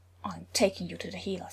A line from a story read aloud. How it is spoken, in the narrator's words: Thor said grimly